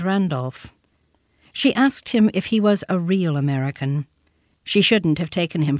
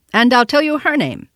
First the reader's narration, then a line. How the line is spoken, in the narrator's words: said the boy sharply